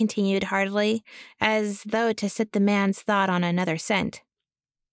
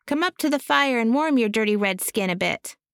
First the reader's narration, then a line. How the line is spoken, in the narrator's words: cried noisily